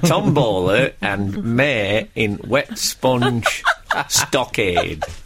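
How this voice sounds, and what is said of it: Put-on generic northern English accent. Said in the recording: “Is this your impression of me? ... Well, it's a generic northern thing.”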